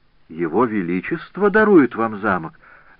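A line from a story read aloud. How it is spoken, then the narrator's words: Astonished exclamation. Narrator (Russian): воскликнула госпожа Перрина вне себя от удивления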